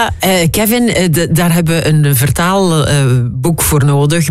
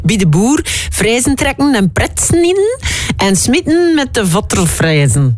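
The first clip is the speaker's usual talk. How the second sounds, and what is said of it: Poor imitation of West Flemish dialect. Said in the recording (Dutch): “Sorry alle West-Vlamingen, ja, voor mijn accent... voor mijn slechte imitatie”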